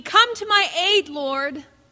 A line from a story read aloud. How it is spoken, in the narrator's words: she cried out in need